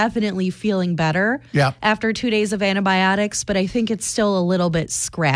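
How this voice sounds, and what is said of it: Usual voice. Nothing is said of it.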